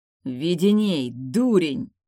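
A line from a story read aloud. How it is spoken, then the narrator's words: Angry snarl. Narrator (Russian): злобно рыкнул Риго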